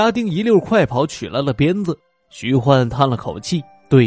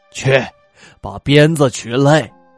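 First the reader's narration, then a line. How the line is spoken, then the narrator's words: Resolute command. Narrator (Chinese): 徐焕……一咬牙，吩咐家丁道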